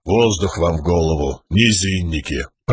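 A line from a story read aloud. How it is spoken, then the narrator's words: Grumbled. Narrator (Russian): проворчал камень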